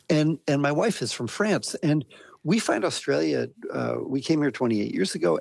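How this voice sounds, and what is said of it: American accent. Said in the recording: “from my accent, you can hear that I'm a migrant, and I migrated from America.”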